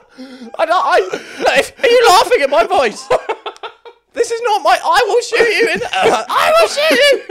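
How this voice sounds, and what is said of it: High-pitched character voice. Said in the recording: “doing the high pitch voice”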